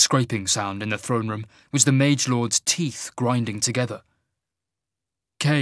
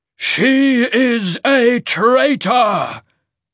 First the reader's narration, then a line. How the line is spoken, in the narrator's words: the Shaman boomed